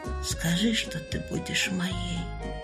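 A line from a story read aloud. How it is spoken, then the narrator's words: Barely audible female voice. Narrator (Russian): чуть слышно повторила она слова, прозвучавшие из уст князя Николая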